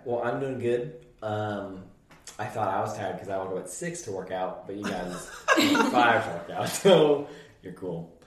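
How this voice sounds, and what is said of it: Hoarse, raspy voice. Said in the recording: “I'm a little hoarse ... my voice is probably going to be gone ... You can already tell it's kind of raspy.”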